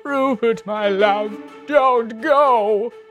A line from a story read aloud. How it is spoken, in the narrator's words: She sobbed out wet and desperate